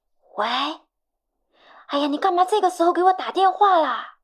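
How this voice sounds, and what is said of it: Hushed, furtive whispering voice. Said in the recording (Chinese): “你声音怎么啦？怎么跟做贼似的？”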